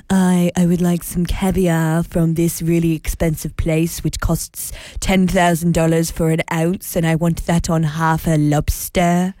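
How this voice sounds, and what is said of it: Fancy snobby faux-French accent. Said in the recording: “I enjoyed that accent. ... a little bit of fancy, a little bit of French, a little bit snobby.”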